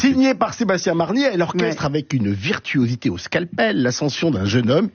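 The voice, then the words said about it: Speaks with a noticeable accent. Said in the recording (French): “mon merveilleux accent”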